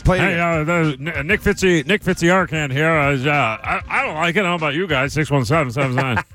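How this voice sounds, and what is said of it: Imitates another person's voice, Kermit-like. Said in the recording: “I thought it was a pretty good impression, but that right there wasn't very good... now you're Kermit the Frog... a little more like Patrick Mahomes or like Kermit the Frog”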